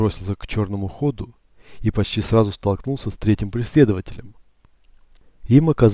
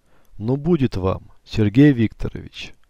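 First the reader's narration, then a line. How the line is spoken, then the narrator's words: Calm. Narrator (Russian): спокойно произнес он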